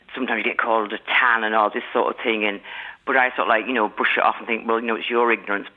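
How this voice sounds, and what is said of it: English Manchester accent. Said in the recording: “That's an English accent I'm hearing. ... Manchester, yeah.”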